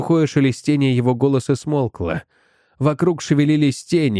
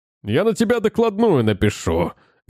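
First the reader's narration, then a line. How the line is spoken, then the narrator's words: Barked. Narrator (Russian): гаркнул помощник контролера Дженкинс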